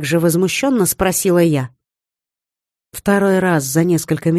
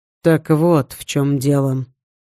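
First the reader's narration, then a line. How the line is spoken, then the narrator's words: Calm. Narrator (Russian): спокойно произнес Женя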